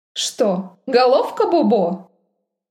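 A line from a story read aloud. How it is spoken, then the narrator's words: Sarcastic drawl. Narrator (Russian): Язвительно протянула Мидени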